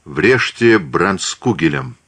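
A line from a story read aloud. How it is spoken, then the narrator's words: Calm order. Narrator (Russian): спокойно велел он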